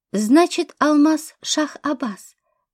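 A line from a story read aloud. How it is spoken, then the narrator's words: Thoughtful, police chief. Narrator (Russian): задумчиво произнес начальник полиции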